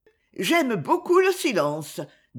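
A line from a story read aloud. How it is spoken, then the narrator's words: Curt, dry. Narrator (French): dis-je sèchement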